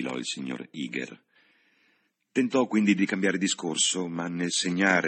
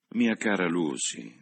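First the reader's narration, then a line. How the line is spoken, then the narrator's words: Mild reproachful tone. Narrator (Italian): disse in tono di blanda riprovazione per l'acume della cugina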